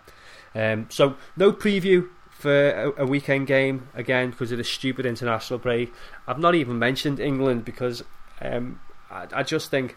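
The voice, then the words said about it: Strained, fading hoarse voice. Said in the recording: “it's saving my voice. My voice is starting to go again, you can probably tell.”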